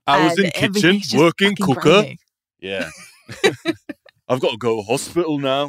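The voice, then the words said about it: Put-on Yorkshire accent. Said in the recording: “but the Yorkshire accent.”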